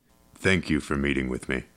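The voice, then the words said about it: Low, smooth voice, indeterminate accent. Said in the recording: “His voice was low, smooth, and of indeterminate accent.”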